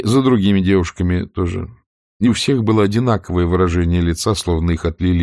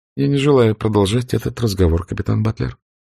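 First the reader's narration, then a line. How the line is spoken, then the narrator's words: Restrained, dry. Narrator (Russian): сдержанно и сухо сказала она, отчаянно стараясь вновь обрести чувство собственного достоинства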